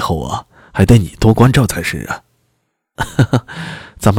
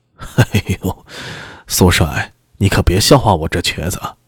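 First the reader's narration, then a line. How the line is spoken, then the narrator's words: Old man, chuckling. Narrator (Chinese): 拐子爷已年过五十，须发花白，笑嘻嘻道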